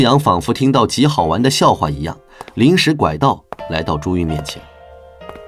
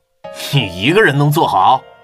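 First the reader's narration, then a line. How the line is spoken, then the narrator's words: Smiling question. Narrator (Chinese): 他笑盈盈地问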